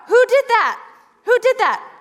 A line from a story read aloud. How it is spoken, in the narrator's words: I shouted out